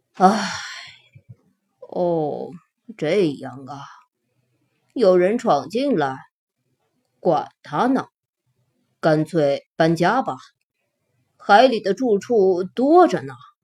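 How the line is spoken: Sighing. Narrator (Chinese): 寄居蟹叹了口气说

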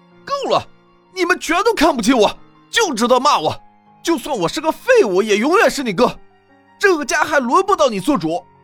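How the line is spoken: Trembling shout. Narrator (Chinese): 傅雷浑身都变得颤抖，抱着头喊道

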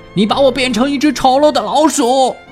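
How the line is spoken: Shrill angry yell. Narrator (Chinese): 他……朝富兰克林尖声的吼叫

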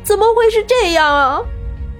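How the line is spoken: Distraught sobbing. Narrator (Chinese): 李春娇……失魂落魄地哭泣着

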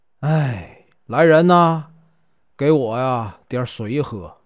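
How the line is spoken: Weak, exhaling. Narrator (Chinese): 梁世元呢，慢慢的把眼睛睁开了，吐出一口气来啊，说呀

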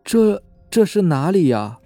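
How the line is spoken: Stammering question. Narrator (Chinese): 小贾结结巴巴地问

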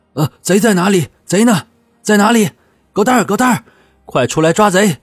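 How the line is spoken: Flustered panicked shout. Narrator (Chinese): 从惊慌中醒来，手忙脚乱的口中喊道

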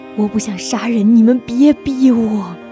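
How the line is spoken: Trembling cry. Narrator (Chinese): 莫小贝 声音颤抖的叫道

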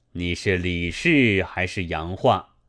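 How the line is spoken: Plain. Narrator (Chinese): 李氏道

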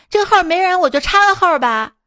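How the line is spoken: Older woman shouting. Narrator (Chinese): 一个大妈就喊

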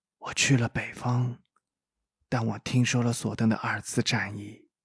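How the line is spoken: Low voice. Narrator (Chinese): 猎魔人低声说

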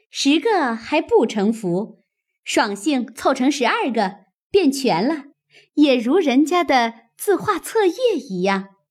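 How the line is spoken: Laughing. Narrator (Chinese): 湘云又笑道

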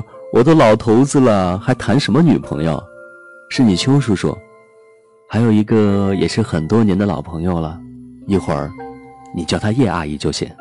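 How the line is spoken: Smiling. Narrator (Chinese): 哲野笑笑说

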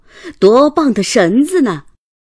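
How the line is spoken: Laughing. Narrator (Chinese): 船夫笑着对凯蒂说

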